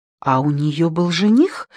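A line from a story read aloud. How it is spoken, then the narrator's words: Plain. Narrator (Russian): спросила Джейми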